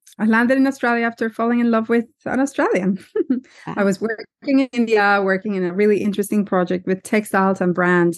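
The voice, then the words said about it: Colombian Spanish accent. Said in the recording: “we will notice your accent ... I'm Colombian, South American.”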